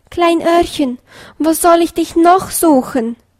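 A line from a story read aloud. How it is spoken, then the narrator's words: Wailing. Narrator (German): jammerte er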